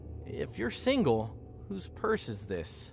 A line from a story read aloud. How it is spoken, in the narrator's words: Brian laughed nervously